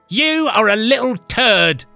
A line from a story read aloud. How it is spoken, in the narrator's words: she shouted back